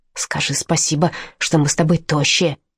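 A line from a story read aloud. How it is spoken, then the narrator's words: Whisper. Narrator (Russian): прошептал Аарон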